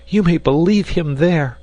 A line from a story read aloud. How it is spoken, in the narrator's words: cried the dame, who could remain quiet no longer